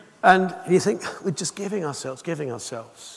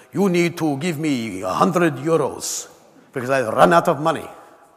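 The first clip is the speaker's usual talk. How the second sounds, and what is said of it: Badly put-on Hungarian accent. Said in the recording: “Hungarian man ... Terrible accent, isn't it?”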